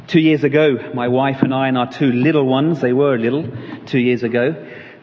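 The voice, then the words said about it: Southern English accent. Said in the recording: “You'll guess from my accent, I don't hail from these parts... moved up from Caterham in Surrey, just south of London”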